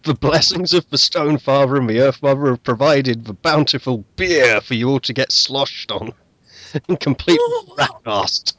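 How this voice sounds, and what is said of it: Strong Australian accent. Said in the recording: “the stronger your Australian accent is.”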